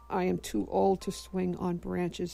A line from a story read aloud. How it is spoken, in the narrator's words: said the boy